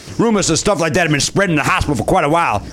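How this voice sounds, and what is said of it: Reading in a put-on accent. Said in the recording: “It's weird that you're still doing the accent ... I'm doing an accent thing because it is serious”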